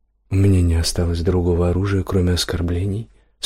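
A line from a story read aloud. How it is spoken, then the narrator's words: Calm. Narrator (Russian): спокойно поинтересовался Парцелл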